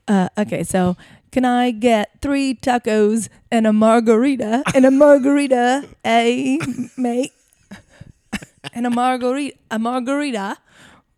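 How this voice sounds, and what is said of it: Put-on Australian accent. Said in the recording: “The next one is Australian. ... a sassy version of the accent. ... g'day, mate ... It's Bluey. That's who I'm trying to sound like”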